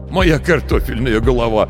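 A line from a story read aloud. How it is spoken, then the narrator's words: Laughing. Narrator (Russian): Он рассмеялся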